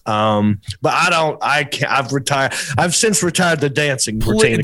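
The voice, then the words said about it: Southern US accent. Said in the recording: “this Southern accent”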